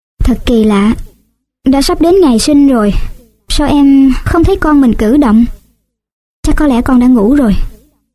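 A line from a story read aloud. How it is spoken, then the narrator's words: Sighing. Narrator (Vietnamese): Bolin thở dài, rồi nói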